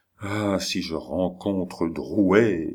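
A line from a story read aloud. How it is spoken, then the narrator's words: Murmured. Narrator (French): murmure-t-il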